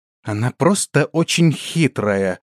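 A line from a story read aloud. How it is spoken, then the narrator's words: Indignant interjection. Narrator (Russian): возмущенно вставила свое слово Ренада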